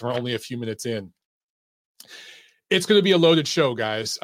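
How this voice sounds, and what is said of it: Strained, hoarse voice. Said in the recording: “I'm already losing my voice.”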